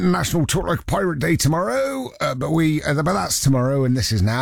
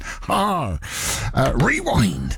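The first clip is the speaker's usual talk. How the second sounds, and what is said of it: Put-on West Country pirate accent. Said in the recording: “put on a West Country accent”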